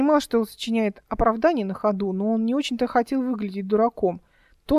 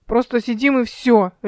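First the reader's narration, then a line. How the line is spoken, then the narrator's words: Sharp declaration. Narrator (Russian): резко заявил Димка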